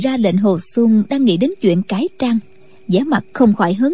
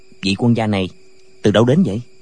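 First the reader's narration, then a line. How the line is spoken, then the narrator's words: Soft question. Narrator (Vietnamese): hỏi khẽ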